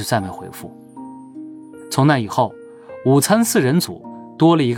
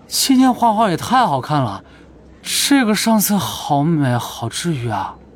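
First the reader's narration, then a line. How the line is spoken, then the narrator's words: Admiring. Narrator (Chinese): 柳哲俊赞叹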